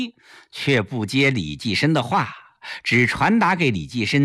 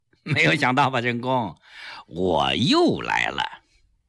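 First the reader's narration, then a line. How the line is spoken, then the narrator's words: Smiling, calm and open. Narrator (Chinese): 蔡增基一笑，很坦然地说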